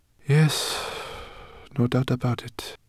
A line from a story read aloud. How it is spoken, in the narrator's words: Zubaydah sighed